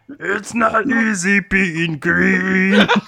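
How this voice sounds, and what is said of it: Kermit the Frog mixed with Fat Albert. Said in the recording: “your Kermit the Frog, but also with the Fat Albert voice”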